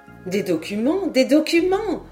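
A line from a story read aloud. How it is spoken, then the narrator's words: Exclaimed. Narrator (French): s'écria Lady Helena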